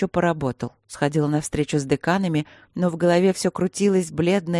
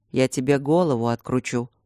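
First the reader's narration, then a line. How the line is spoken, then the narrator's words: Calm. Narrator (Russian): спокойно сказал Алекс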